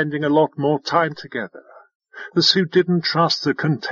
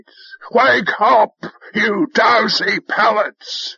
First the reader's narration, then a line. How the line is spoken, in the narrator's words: Five-Tide bellowed